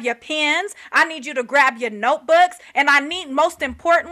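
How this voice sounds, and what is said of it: Usual voice. Nothing is said of it.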